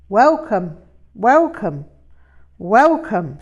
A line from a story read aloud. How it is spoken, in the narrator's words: she called out